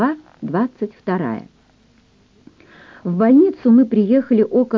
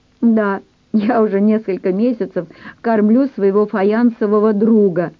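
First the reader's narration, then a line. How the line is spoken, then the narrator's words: Laughing. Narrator (Russian): засмеялась невестка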